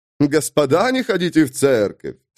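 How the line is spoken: Laughing repetition. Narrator (Russian): смеясь, повторил принц Гектор

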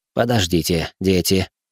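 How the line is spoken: Sudden gentle interruption. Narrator (Russian): вдруг мягко прервал их Вонг

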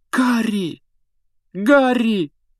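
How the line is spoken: Exclaiming. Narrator (Russian): воскликнула Гермиона

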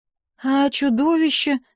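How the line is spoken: Timid, stammering. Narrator (Russian): робко заикнулась я

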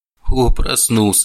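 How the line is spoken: Snorting. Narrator (Russian): хмыкнул Чез

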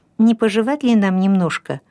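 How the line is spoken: Timid suggestion. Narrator (Russian): робко предложил Расмус

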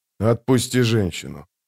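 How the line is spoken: Quiet. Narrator (Russian): тихо сказал он

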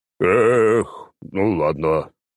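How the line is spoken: Sighed. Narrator (Russian): вздохнул Нургал

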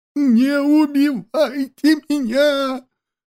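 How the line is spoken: Terrified shriek. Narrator (Russian): визжал турок, сжимаясь в ужасе

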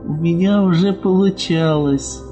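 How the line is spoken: Uncertain reply. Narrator (Russian): Неуверенно ответила она

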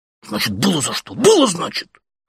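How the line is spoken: Whispered shout. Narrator (Russian): шепотом же крикнул он

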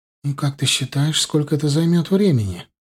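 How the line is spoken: Sighing. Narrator (Russian): вздохнула Джоан

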